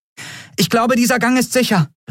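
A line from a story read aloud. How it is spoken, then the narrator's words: Called out. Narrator (German): rief sie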